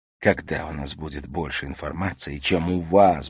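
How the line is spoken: Muttered, cursing under breath. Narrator (Russian): бормотала она, ругаясь про себя

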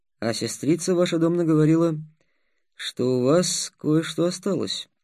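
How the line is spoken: Indifferent voice. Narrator (Russian): равнодушным голосом сказал Ростислав

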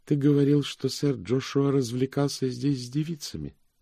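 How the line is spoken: Flat, colorless voice. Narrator (Russian): Дора Гая сказала бесцветным голосом

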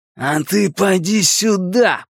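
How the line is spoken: Growled. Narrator (Russian): прорычал Генри

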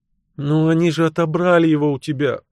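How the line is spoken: Sighing. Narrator (Russian): вздохнула мисс Клек

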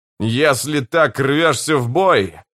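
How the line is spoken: Growling. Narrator (Russian): прорычал Карса

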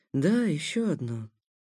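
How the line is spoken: Quiet. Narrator (Russian): сказал тихо ему в спину Итангея

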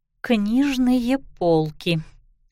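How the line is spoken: Through gritted teeth. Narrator (Russian): сквозь зубы ответила она

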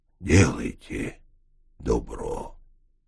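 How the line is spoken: Calm, quiet voice. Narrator (Russian): произнес уже спокойным, негромким голосом

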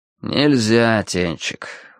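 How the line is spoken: Tired. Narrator (Russian): устало выговорил Виталя

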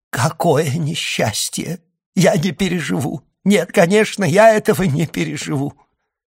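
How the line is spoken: Bursting into sobs. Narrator (Russian): она разразилась рыданиями

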